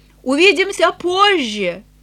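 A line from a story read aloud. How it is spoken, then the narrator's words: Calling out after. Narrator (Russian): Эленор крикнула вслед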